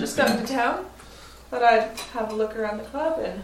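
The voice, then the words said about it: New Zealand accent. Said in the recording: “Is that a Kiwi accent I detect? ... In fact, it is.”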